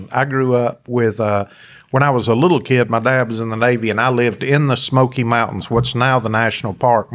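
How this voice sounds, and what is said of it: Appalachian Tennessee accent. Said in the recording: “people can probably hear your voice and tell you're from Tennessee originally ... my accent is Appalachian”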